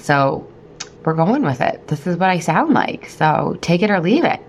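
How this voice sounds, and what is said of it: Husky voice from a cold. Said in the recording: “my sexy voice. I have a little bit of a cold. ... enter voice of sex”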